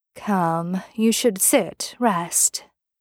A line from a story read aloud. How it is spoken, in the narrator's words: Misha said, his voice artificially soft